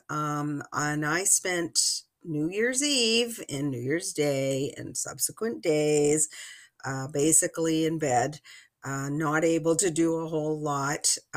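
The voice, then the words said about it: Voice not fully back to normal. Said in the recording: “You might still hear it in my voice. My voice is still not completely back to normal”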